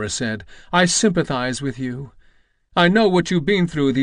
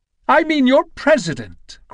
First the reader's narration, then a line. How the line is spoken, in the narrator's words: cried Elmira